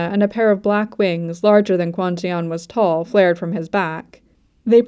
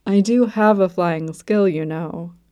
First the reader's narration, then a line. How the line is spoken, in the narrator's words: Yoon-so was saying, but his tone sounded gentle rather than annoyed